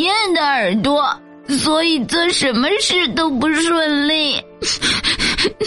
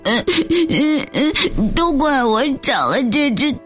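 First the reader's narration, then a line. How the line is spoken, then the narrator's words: Sad crying lamb. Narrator (Chinese): 小羊伤心的哭了起来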